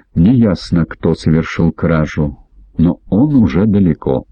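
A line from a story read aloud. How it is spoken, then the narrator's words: Calm report. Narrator (Russian): спокойно сообщил Энди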